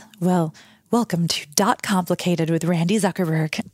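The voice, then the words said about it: Polished radio host voice. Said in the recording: “maybe you could tell us in your radio voice.”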